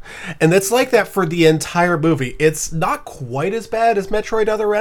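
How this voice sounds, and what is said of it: Usual voice. Nothing is said of it.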